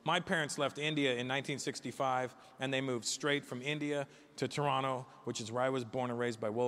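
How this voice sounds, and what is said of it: Usual voice. Nothing is said of it.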